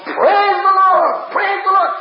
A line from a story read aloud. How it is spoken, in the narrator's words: he took a deep breath and he started to shout